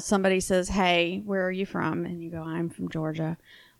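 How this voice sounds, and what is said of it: Southern US accent. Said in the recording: “I get either asked or told that I have a Southern accent”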